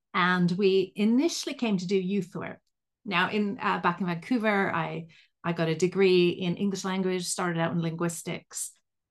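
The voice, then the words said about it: Mixed Canadian and Liverpool English accent. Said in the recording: “My weird accent comes from the fact that I'm a Canadian from Vancouver, but I've lived right near Liverpool in England for the last 29 years.”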